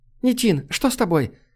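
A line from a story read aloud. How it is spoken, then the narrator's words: Frightened woman's exclamation. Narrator (Russian): испуганно воскликнула женщина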